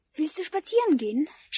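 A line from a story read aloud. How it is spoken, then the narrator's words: Excited question. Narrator (German): aufgeregt wie ich war, fragte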